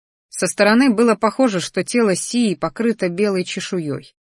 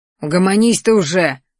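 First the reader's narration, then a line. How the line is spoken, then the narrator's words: Grumbling. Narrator (Russian): проворчал Рахтар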